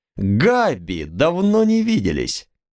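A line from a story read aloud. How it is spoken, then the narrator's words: Exaggeratedly cheerful. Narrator (Russian): Я сказал подчеркнуто радостно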